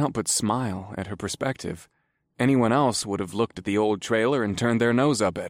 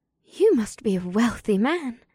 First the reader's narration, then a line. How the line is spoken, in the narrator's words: Ibsith breathed